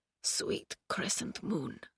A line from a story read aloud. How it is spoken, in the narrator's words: he whispered, his lips barely able to form the words